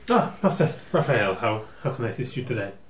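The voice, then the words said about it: Nervous posh character voice. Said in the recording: “trying to remember what Danny Kinnett's accent was... was sort of like nervous, like... Posh... nervous posh”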